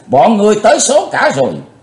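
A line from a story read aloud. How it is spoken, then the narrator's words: Roaring like thunder. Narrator (Vietnamese): Quái tà gầm vang tợ sấm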